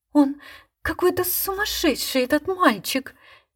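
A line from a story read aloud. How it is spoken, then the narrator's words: Frightened, embarrassed whisper. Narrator (Russian): Испуганно и смущенно шептала она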